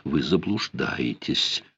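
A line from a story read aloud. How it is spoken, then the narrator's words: Forced calm objection. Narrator (Russian): возразила, стараясь говорить спокойно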